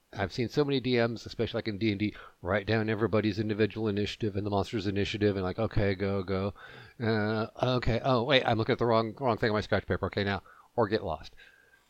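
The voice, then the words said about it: Speaking too fast. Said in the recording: “I'm talking too fast.”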